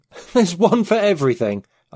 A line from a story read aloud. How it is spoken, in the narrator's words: I exclaimed